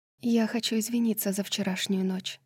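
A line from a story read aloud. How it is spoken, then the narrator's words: Quiet. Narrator (Russian): она тихо сказала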